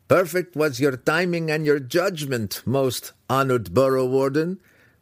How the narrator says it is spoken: Brickers said to his peer when he managed to stop laughing

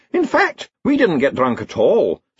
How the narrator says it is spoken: said the Chair of Indefinite Studies brightly

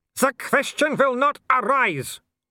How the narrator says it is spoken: Wolf bellowed

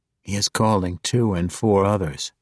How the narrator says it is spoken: Jarlaxle whispered to Caddy Bree

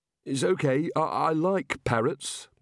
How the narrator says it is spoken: mumbled Rincewind

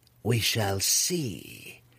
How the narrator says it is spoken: Malice purred, her confidence growing in her former rival's decree of respect

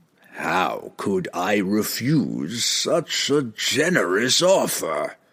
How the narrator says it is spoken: the demon rasped in its horrible, unearthly voice

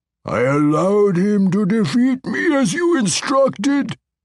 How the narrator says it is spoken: Bilwer's bellowing voice informed the Spider Queen and the Baelor Ertu

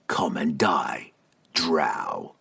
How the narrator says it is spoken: he spat

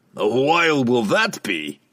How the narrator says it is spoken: laughed

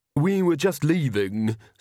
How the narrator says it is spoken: said Magrat haughtily

